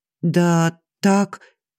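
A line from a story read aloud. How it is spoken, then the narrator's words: Barely forced out. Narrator (Russian): едва выдавила из себя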